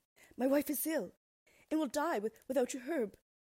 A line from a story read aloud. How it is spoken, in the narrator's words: pleaded the man